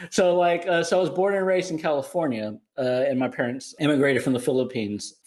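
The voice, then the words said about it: American accent. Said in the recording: “obviously I have an American accent ... No, you do.”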